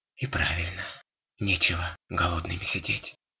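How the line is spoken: Tired mutter. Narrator (Russian): устало пробормотал Синтер

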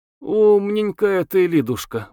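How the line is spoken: Sighing. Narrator (Russian): вздохнула Телепнева

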